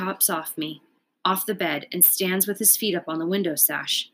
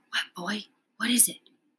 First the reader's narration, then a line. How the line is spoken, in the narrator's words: whisper